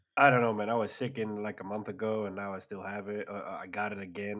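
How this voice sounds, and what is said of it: Congested, sick-sounding voice. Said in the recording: “My voice is a bit different because I got the cold again”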